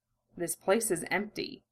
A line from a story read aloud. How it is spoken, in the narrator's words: Ed murmured